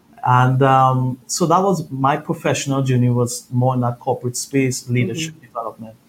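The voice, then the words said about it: Trinidadian Caribbean accent. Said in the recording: “If you hear my accent, I'm originally from Trinidad, Caribbean boy.”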